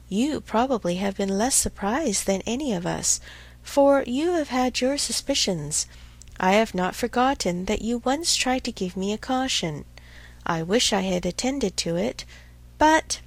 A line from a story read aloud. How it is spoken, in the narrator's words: with a sinking voice and a heavy sigh